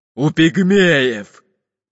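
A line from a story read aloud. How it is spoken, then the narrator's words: Grumbled. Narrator (Russian): проворчал толстый пират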